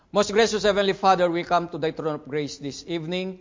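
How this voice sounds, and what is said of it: Non-native English accent. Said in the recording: “I know that I'm not good in English. Sometimes they may not understand me because of my accent.”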